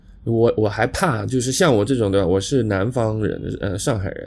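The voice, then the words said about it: Heavy Shanghai accent. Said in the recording (Chinese): “你的。上海口音还是蛮重的”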